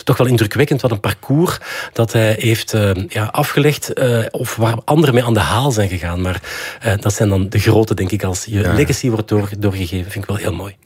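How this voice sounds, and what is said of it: Antwerp Borgerhout Flemish accent. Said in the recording (Dutch): “misschien heeft het met mijn Borgerhoutse accent te maken”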